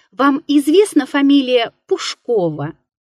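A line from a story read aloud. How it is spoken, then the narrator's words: Timid cough. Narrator (Russian): робко закашлял визави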